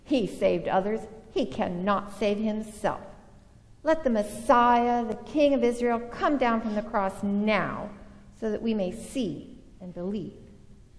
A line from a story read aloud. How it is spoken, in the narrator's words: the chief priests, along with the scribes, were also mocking him among themselves, saying